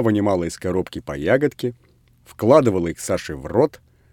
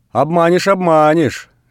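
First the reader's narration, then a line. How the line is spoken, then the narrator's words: Shouting. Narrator (Russian): закричала Людмила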